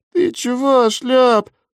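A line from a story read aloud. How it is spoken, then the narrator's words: Mumbling. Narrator (Russian): замямлил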